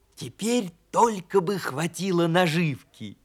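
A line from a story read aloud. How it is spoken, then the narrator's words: Whispering hedgehog. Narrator (Russian): прошептал ежик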